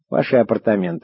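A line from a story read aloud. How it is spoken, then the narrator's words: Plain. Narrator (Russian): сказала Белла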